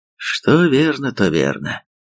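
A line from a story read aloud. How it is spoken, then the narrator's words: Sighing, leader. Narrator (Russian): вздохнул великий руководитель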